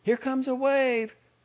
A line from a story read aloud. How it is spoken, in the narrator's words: Sybil said nervously